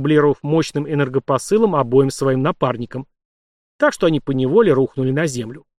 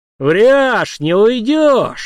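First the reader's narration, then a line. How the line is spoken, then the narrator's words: Excited shout. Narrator (Russian): азартно выкрикнул Март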